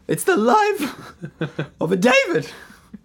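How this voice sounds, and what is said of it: Imitates another person's voice. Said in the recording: “Your Gabby impression was disgusting.”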